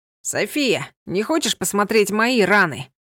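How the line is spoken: Hurt, offended calling. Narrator (Russian): Обиженно позвал Ива

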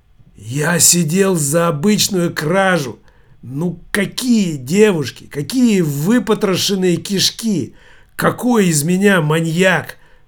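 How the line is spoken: Hoarse, after pain. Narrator (Russian): прохрипел Биба Шиз, когда чудовищная боль отпустила

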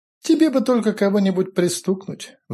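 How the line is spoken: Sigh. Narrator (Russian): вздохнул Файтви

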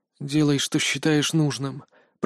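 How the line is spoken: Faint whisper, fading. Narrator (Russian): прошептал я, чувствуя, как меня накрывает неумолимо надвигающаяся тьма

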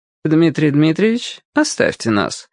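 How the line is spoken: Polite, demanding tone. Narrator (Russian): светским тоном потребовала Диана Яковлевна

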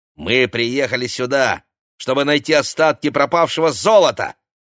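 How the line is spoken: Angry, snapping. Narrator (Russian): злобно бросила Ксения

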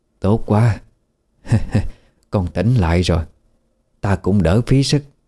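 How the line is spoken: Smiling. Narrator (Vietnamese): bà ta liền mỉm cười

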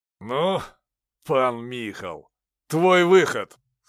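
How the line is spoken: Angry. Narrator (Russian): сказал Заруцкий, зло сверкнув глазами

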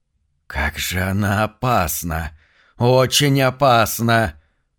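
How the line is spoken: Hissing from behind. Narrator (Russian): прошипел кто-то за спиной

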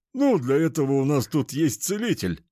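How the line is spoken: Chuckle. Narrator (Russian): хохотнул тренер

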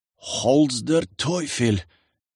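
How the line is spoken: Mutter. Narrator (Russian): пробормотала Юлька

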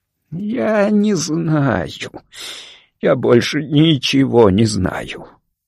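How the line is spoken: Muffled mutter. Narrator (Russian): глухо пробормотал он

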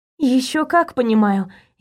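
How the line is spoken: Sighing. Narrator (Russian): я вздохнула

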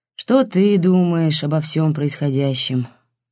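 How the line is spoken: Tired question. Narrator (Russian): устало спросил он, чувствуя, что голова все-таки гудит

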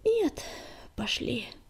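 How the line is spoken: Sighing. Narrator (Russian): вздохнул Огнегриф

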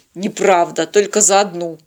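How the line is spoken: Picky grumble. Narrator (Russian): проворчал Тед, придирчиво осматривая каждый листик

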